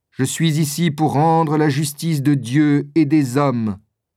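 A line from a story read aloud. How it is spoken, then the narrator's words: Plain. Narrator (French): dit le bourreau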